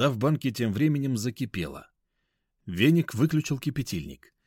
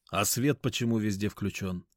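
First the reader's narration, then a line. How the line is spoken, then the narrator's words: Plain. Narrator (Russian): спросил я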